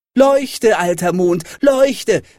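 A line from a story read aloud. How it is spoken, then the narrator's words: Calling out. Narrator (German): rief er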